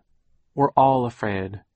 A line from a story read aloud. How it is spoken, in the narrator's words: she said firmly